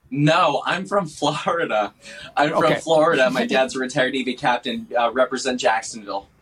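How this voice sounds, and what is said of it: Wisconsin Midwestern accent. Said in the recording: “your accent is like, you are right from, you know, Wisconsin Midwest, or Minnesota ... You speak Wisconsinite, Wisconsinese.”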